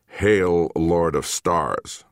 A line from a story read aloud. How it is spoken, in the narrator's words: growled one of her squat escorts in Pigeon Galactic